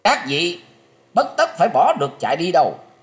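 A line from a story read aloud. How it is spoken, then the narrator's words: Sudden shout. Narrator (Vietnamese): bỗng nghe tiếng quát rằng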